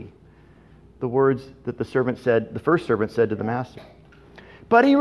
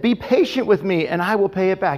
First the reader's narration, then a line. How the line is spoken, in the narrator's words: fell to his knees and begged him